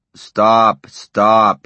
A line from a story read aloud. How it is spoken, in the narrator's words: he bellowed